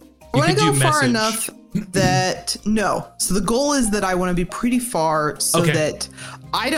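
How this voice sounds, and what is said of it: Usual voice. Nothing is said of it.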